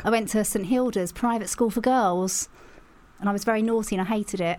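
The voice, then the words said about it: Essex English accent. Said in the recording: “Can you tell the Essex accent? ... As soon as you mentioned it, I went, yeah, that makes a lot of sense.”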